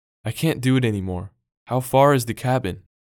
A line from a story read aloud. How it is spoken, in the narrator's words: cried out